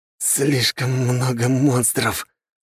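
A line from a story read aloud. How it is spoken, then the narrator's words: Hoarse wheeze. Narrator (Russian): слыша позади приближающийся рев чудовищ, прохрипел Гюрза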